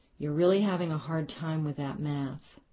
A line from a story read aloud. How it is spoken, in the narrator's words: She breathed deeply and said